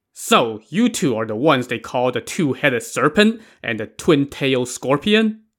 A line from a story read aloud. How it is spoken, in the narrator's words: the warden barked